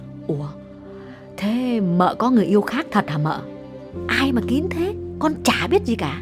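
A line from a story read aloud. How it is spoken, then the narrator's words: Lowered voice. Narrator (Vietnamese): Con Dung hạ giọng bảo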